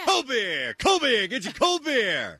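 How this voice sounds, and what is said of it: Stadium beer vendor call accent. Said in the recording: “kind of accent is that? ... Is that a New Jersey? ... Baltimore? ... That's a vendor accent”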